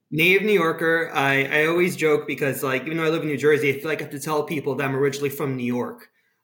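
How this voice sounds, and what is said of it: New York accent with Israeli tinge. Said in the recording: “your accent to me does sound, and look, my untrained British ears, kind of typically New York ... the accent is just really kind of a combination of my mother's Israeli accent and my father's accent from Florida and a little bit of Brooklyn kind of thrown into the mix”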